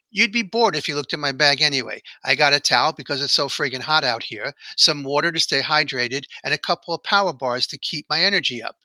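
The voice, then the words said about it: Exaggerated New York City accent. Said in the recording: “I said with an exaggerated New York City accent.”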